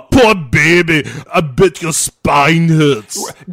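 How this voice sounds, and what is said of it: Arnold Schwarzenegger impression, Teutonic accent. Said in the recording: “When Arnold Schwarzenegger looks at you and says, "Oh, poor baby," his voice doesn't have the delicacy to handle like irony and sarcasm appropriately. So it just sounds cruel. It's that Teutonic accent of his.”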